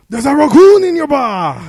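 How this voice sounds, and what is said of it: Shouted impression with an accent. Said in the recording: “Is that your best impression? ... Why did John Taffer get an accent?”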